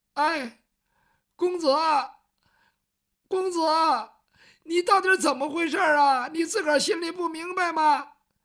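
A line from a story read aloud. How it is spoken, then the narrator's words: Crying child. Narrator (Chinese): 哭了，他毕竟是个孩子，没经过这个事儿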